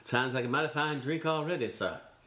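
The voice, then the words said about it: Put-on Southern American accent. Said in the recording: “automatically you start doing a Southern accent ... Even if you're unable to do a Southern accent.”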